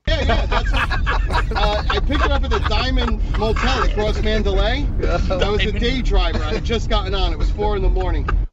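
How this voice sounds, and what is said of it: New York accent. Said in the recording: “Listen to that New York accent, by the way. Isn't that great?”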